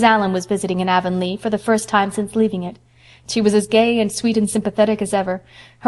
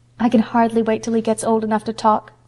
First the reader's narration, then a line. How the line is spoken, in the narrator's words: sighed Diana